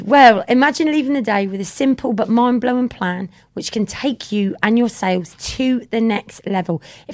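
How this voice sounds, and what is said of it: Slightly croaky voice. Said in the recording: “my voice is a little bit croaky today, can you tell? I've been talking a lot.”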